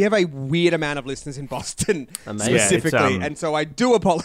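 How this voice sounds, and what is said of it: Usual voice. Nothing is said of it.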